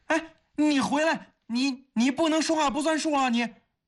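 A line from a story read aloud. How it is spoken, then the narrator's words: Anxious loud shout. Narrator (Chinese): 方薇心中大急……他只好大声地喊道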